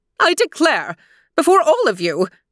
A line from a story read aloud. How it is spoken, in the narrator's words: Maleficent called out